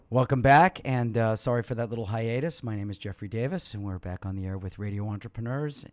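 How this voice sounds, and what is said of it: Hoarse voice. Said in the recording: “my hoarse throat”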